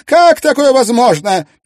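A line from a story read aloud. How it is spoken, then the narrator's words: Loud effusive. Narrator (Russian): стала бурно и громко выражать ему свою любовь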